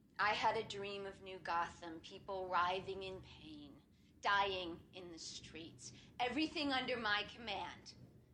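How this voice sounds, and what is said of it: Villainous Harley Quinn character voice. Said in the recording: “doing the Harley voice now. So there's that separation between her doctor voice and her villain voice.”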